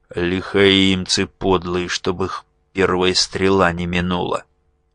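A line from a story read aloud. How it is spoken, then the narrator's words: Grim, through gritted teeth. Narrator (Russian): Моряк этот мрачно процедил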